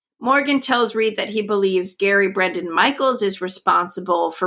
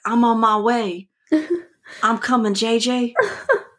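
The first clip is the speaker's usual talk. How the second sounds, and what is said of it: Put-on accent, fairly good. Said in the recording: “That was good. ... That was a good accent? ... Yeah. ... I feel like I'm getting better.”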